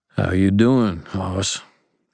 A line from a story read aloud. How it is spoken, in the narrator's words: Ebenezer asked in a gentler tone